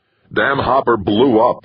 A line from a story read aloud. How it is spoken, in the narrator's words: Hasdrubal snapped